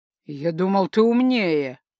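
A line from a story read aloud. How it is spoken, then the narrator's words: Irritated, almost angry. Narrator (Russian): раздраженно и почти зло заявил противный муж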